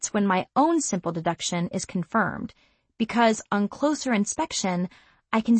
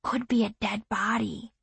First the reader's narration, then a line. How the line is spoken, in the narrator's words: Kelton whispers